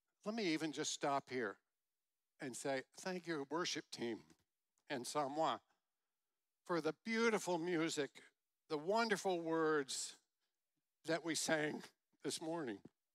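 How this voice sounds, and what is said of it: Choked-up, emotional voice. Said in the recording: “I'm getting choked up already.”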